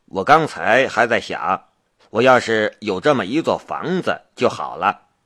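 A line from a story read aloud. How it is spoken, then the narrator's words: Laughing. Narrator (Chinese): 夏雷笑道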